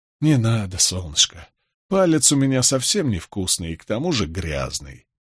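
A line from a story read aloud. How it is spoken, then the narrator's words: Tender, gentle. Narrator (Russian): ласково сказал я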